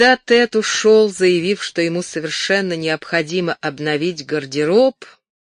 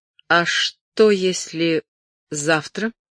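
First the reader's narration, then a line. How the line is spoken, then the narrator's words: Quiet. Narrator (Russian): Тед негромко произнес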